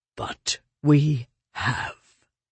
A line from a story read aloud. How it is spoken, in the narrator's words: said slowly, inexorably